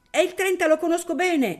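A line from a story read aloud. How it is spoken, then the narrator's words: Child shouting. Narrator (Italian): gridò il bimbo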